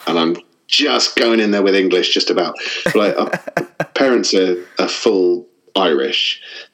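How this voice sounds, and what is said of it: English accent. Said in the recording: “I sound really English ... I just don't have the accent, just the occasional inflection comes out ... I guess from your accent.”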